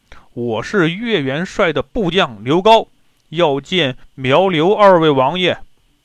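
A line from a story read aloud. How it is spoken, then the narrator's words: Loud calling out. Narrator (Chinese): 刘高 高声叫道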